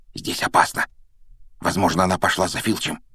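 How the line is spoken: Whispered. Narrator (Russian): шепнул Рон

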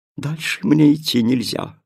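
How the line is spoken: Sighing spirit. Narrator (Russian): вздохнула душа света

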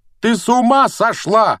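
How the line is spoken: Roaring. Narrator (Russian): проревел Гарри

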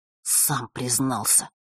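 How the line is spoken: Through clenched teeth. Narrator (Russian): процедил Ник

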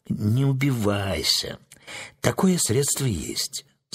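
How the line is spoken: Calm sorceress. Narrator (Russian): спокойно молвила волшебница

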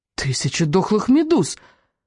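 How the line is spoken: Fish-child exclaiming. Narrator (Russian): воскликнул рыбьенок

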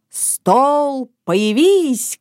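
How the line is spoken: Shout. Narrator (Russian): крикнул он

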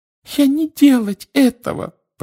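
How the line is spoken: Frightened squeak. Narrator (Russian): пропищала она, вращая от страха глазами

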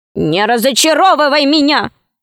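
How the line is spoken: Angry gnome. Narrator (Russian): сказал гном сердито

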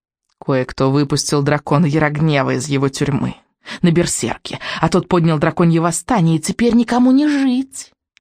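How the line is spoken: Hissing witch. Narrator (Russian): прошипела ведьма

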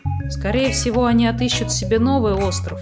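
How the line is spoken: Plain. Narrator (Russian): сказал Снус Мумрик

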